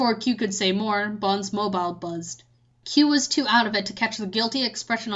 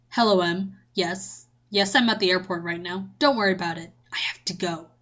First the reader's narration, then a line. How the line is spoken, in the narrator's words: he whispered to Q